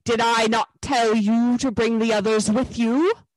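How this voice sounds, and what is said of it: Terrible, menacing witch voice. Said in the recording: “said the witch in a terrible voice”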